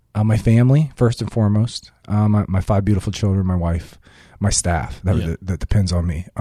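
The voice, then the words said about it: Choked up, emotional voice. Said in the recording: “It's an emotional space for me. As you can see, I get a little choked up anytime I talk about it”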